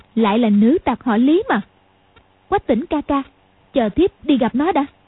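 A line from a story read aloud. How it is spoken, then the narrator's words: Angry. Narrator (Vietnamese): Hoàng Dung tức giận nói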